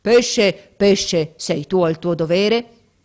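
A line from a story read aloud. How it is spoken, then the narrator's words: Terrible voice. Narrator (Italian): con voce terribile gli disse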